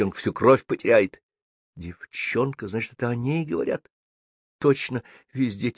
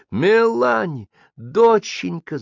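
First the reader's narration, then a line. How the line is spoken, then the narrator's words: Frantic shouting woman. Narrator (Russian): закричала растрепанная, облаченная в пеньюар Марии Перен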